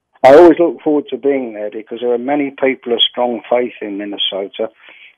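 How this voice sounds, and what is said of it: Australian-accented English. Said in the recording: “Originally, I believe, from Australia, but calling us today from the UK ... that accent will be totally straightened out and you'll be talking northern Minnesotan”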